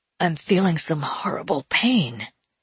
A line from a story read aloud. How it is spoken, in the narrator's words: said the masculine owner of this new license, looking faintly green